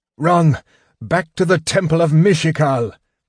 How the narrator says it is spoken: Tanis gasped with pain

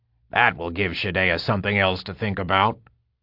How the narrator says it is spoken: Tagwin grunted, a smile on his bearded face

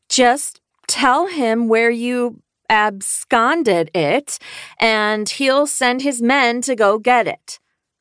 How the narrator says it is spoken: Tina said, enunciating slowly

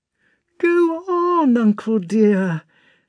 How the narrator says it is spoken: Natasha wailed in an imploring tone, as if her life depended on it

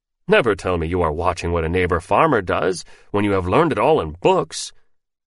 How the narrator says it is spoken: he roared with fresh laughter, and cried

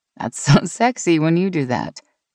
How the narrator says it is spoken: Meg said with a laugh

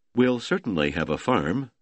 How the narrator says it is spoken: Ludwig said

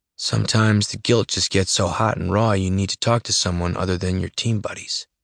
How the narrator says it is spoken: Tyler says, his voice softer

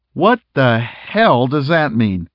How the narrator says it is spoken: Smitty asked

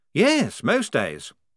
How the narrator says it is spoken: said Blouse happily

